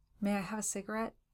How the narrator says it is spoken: he asked

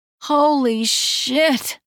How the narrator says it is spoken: I moan

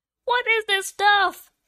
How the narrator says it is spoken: I shrieked

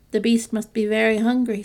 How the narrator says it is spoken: said Beauty, trying to laugh

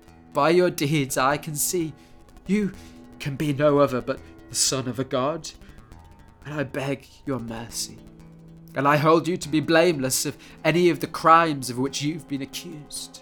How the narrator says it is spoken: gasped

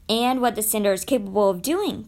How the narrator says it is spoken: cried Number Two

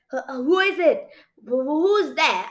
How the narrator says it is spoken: I stammered

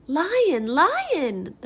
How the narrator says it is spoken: the bird chirped, astonished

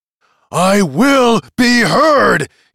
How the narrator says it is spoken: he shouted

